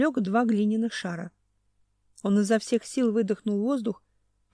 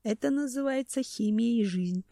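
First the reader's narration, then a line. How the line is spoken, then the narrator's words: Muttering. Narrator (Russian): пробормотал Семен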